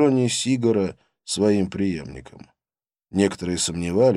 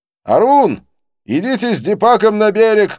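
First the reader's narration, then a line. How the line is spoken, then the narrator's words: Shouted. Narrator (Russian): кричал он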